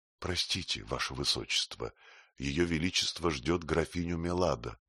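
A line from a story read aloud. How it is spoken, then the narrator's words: Whisper. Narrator (Russian): гофмаршал Нерита, шепнул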